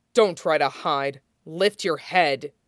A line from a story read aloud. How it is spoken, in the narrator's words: the younger hero said coldly